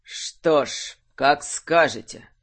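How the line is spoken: Envoy speaking through teeth. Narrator (Russian): процедил посланник

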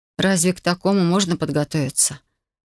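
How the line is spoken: Sighing again. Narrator (Russian): Опять вздохнула я

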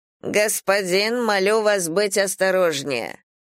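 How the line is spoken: Icy request. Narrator (Russian): ледяным тоном попросил он

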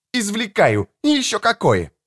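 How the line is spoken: Snapping back. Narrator (Russian): огрызнулась Мишель

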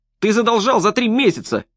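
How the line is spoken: Shrill squeal. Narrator (Russian): взвизгнул Престон

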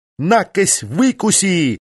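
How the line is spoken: Yelled. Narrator (Russian): заорала Полина

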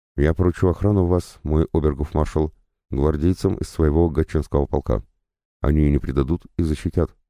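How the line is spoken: Plain. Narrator (Russian): сказал монарх

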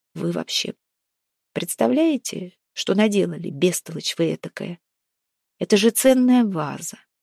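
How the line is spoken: Flat colorless voice. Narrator (Russian): бесцветным голосом сказал Максим Владимирович

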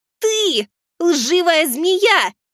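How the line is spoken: Girl shouting, holding back sobs. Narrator (Russian): выкрикнула девочка, борясь с рыданиями

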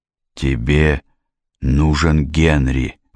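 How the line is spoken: Forced-out words. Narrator (Russian): выдавил

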